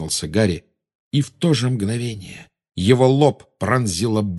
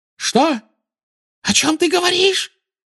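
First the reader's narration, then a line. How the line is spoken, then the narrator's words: Shrill squeal. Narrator (Russian): взвизгнула она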